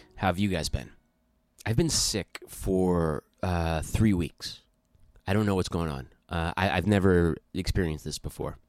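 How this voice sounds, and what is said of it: Congested, stuffy-nosed voice. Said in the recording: “You can probably hear in my voice that I'm congested.”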